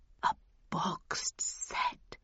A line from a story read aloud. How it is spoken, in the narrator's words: he whispered